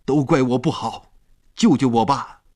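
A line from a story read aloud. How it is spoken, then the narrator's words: Desperate, struggling shout. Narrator (Chinese): 他在海里挣扎着喊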